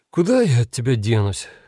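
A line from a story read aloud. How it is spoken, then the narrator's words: Sighing. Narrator (Russian): вздохнул Анджей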